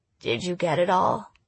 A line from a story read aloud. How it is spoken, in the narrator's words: in a low, creaky voice